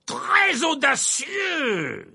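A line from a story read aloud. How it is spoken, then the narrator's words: Crying out. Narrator (French): s'écria Verpé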